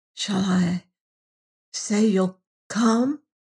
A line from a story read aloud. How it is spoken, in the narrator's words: she whispered